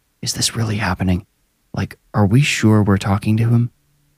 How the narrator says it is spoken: he whispered

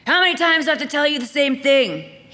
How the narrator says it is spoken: He snapped

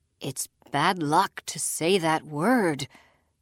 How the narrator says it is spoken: muttered Pigeon

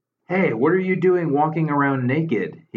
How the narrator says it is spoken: called out involuntarily

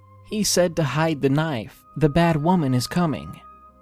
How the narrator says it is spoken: she said

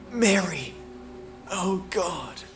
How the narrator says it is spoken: he whispered

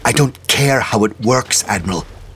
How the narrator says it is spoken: snapped St

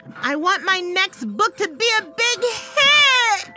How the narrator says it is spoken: screamed, still grinding

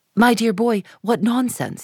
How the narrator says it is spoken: he cried

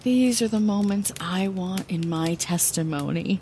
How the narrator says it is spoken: I sighed, releasing everything inside of me in this moment of vulnerability

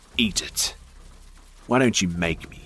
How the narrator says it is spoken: he spat

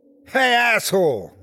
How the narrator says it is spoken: I yelled

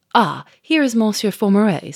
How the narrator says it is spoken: said cheerfully

